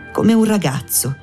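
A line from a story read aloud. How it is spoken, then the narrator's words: Woman's unsteady voice. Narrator (Italian): la donna disse con voce malsicura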